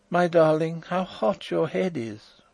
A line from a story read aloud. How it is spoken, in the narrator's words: I heard her murmur